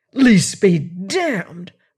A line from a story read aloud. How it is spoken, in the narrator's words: roared Ellis